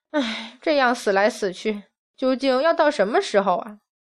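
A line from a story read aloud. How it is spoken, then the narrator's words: Heavy sigh. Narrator (Chinese): 忍不住大叹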